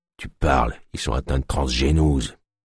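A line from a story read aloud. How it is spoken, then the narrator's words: Whispered in ear. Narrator (French): lui murmura-t-il à l'oreille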